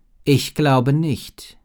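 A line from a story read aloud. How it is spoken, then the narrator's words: Plain. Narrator (German): antwortete Yajana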